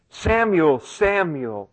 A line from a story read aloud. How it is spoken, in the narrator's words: the Lord came and stood and called out as at other times